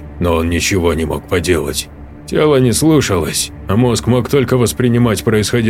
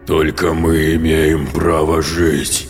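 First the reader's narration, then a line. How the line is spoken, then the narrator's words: Menacing growl. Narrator (Russian): угрожающе прорычал голос существа в его голове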